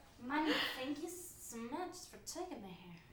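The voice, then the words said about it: Drunk-sounding voice. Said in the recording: “my drunk impression, is it bad? ... it was pretty accurate, actually”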